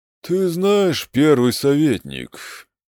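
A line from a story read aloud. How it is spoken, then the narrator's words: Lazy drawl. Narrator (Russian): лениво произнес он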